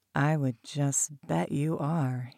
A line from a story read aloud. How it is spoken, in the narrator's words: he purred, deep and low